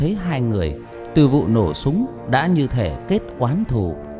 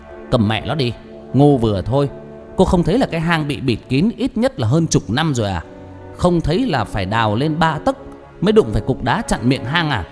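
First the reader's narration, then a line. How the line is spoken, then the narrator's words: Harsh, clipped voice. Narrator (Vietnamese): Tư Huyền gằn giọng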